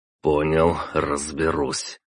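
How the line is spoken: Sighing. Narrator (Russian): вздохнул я

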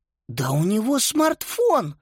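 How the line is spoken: Indignant whisper. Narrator (Russian): возмущенно прошептала

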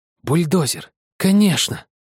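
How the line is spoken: Exclaiming. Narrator (Russian): воскликнул он

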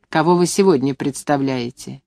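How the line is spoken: Angry question. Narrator (Russian): Я спросила сердито

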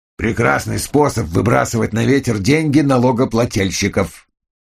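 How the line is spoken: Grumbling. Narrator (Russian): проворчал Эйткин

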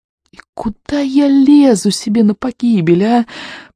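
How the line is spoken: Groaned. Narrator (Russian): простонал он

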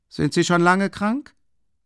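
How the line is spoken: Calling from seat. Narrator (German): rief Ilja Petrowitsch von seinem Platz aus

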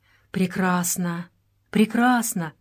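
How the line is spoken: Muttered, Englishman. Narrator (Russian): бормотал англичанин

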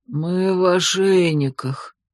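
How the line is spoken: Bitter hoarse rasp. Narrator (Russian): горько прохрипел кто-то

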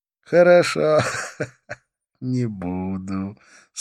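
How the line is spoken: Laughing again. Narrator (Russian): снова рассмеялся

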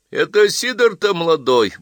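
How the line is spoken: Deep booming laughter. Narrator (Russian): басовито хохотала Дульцинея

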